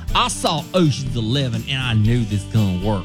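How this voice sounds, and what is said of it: Put-on southern accent. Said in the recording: “has a very southern accent.”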